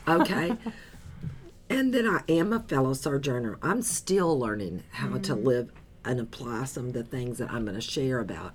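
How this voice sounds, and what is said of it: Slightly hoarse, partly lost voice. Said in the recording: “I've lost my voice a little bit... this small loss of voice”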